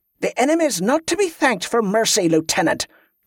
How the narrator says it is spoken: Kelisandra snapped

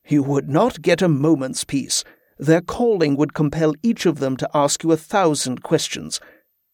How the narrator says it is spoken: said with a chuckle

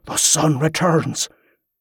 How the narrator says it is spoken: he breathed, tears welling in his eyes

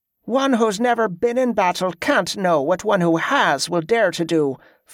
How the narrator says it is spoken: Fletcher snapped

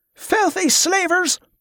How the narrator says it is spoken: one of them shouted

